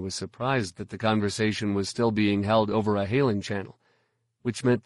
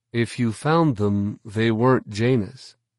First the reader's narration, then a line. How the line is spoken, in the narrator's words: Luke replied smoothly